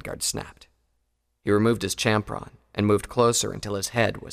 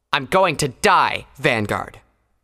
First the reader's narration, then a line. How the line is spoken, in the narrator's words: Pyrovalor snarled